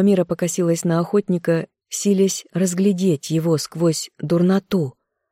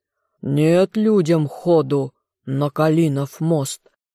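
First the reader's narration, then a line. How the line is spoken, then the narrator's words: Menacing roar. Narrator (Russian): Горыныч проревел устрашающе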